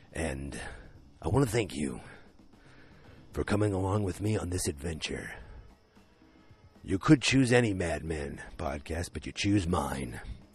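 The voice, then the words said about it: Deep, low announcer voice. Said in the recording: “I have my deeper voice because of the concert ... I'm going to go very down into the coolest announcer voice I can think of”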